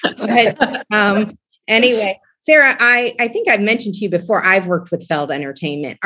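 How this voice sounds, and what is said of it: Strong Ohio accent. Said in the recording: “as bad of an Ohio accent as I do”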